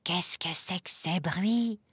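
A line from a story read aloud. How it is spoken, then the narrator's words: Whispering in someone's ear. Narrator (French): chuchote-t-il à l'oreille de Madame Ours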